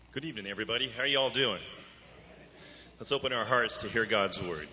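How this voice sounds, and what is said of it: Polished radio-style voice. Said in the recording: “He's got a great radio voice.”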